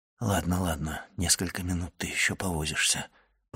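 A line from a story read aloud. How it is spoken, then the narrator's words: Whisper. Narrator (Russian): прошептал граф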